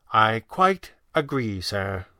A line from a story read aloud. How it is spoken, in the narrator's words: Weston said gravely